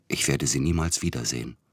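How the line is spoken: Whispered. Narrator (German): flüsterte er

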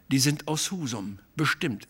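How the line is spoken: Plain. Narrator (German): sagte ich

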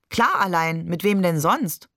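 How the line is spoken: Laughing question. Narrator (German): fragte Barbe und lachte

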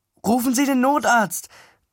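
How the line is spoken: Calling out. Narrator (German): rief ich der Frau zu

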